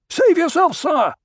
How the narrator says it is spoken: the Sarduka officer shouted

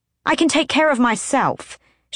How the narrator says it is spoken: she snapped

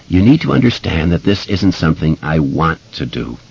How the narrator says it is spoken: he said

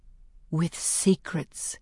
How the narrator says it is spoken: says softly

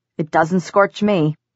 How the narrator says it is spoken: Simon said in a hard, clear voice

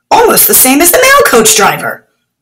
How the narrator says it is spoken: Haroon exclaimed

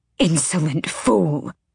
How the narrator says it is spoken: the matron hissed

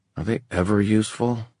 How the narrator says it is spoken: Kit muttered under his breath

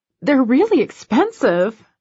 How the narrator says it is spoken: I gasp

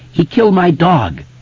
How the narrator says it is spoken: Mike cried out, his voice shrill and breaking

